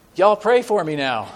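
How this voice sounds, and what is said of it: Put-on charming Southern accent. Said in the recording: “crying out in a very charming southern accent”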